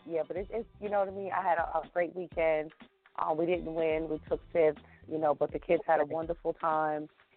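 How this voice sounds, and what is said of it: Raspy, hoarse voice. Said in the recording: “my voice is just, oh, my God ... It's terrible. Yeah, it's bad. I'm all raspy”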